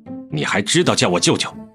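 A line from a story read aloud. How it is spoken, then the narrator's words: Stern, harsh. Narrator (Chinese): 江城厉声道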